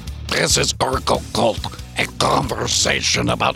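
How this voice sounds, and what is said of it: Cartoon voice like Merman. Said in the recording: “I can't do this voice anymore. ... You would turn it into Ren and Stimpy, man. ... I turned it into Merman from Masters of the Damn Universe. ... that is that voice”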